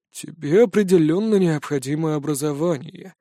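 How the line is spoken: Sighing. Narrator (Russian): вздохнул отец Нор

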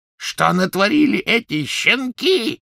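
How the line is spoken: Yelling. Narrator (Russian): завопил он

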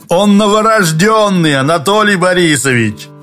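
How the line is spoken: Cheerful. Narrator (Russian): весело сказал Юрковский

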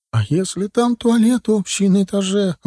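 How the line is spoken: Tearful exclamation. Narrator (Russian): воскликнула Инна, и глаза ее предательски заблестели

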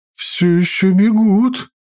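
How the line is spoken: Panicked voice. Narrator (Russian): уже паническим голосом сказала тетя

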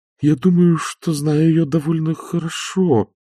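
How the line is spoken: Uncertain mumble. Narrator (Russian): неуверенно промямлила Агнеса

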